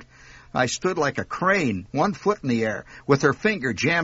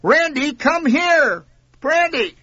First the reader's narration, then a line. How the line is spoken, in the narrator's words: she yelled